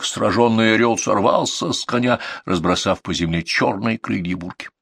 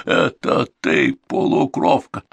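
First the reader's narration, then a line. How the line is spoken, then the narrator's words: Astonished wheeze. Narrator (Russian): Мюрит в изумлении прохрипел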